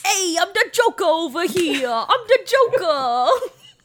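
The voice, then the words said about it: Joker character voice impression. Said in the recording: “my Joker impression? ... doing the Joker”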